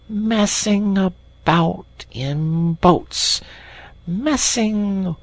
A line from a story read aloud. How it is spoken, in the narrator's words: he went on dreamily